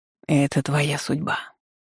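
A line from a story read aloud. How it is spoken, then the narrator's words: Wind whispering in ear. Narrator (Russian): шепнул на ухо ветер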